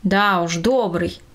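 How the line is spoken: Grumbling, head down. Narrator (Russian): не поднимая головы, буркнула тетя Лида

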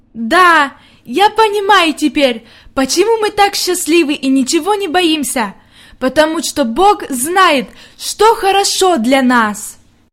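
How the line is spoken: Loud. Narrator (Russian): она громко сказала

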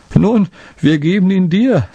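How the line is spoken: Laughing. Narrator (German): sagte er lachend

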